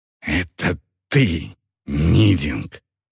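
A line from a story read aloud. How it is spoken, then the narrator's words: Hiss. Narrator (Russian): прошипел Гудвар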